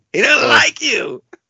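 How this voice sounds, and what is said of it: Imitates a character's voice. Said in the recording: “your Dr. Ezavan impersonation”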